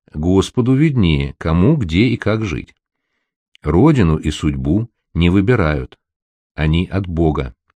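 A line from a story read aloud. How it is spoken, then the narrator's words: Calm old woman. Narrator (Russian): Бабушка отвечала спокойно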